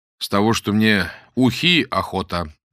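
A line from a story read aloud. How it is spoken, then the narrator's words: Overly loud. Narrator (Russian): излишне громко сказал Боголюбов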